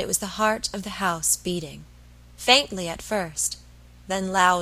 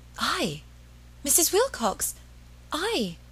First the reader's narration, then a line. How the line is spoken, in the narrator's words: Margaret stammered